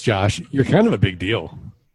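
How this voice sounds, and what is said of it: Mock news anchorman voice. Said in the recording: “I'm going to put on my anchorman voice”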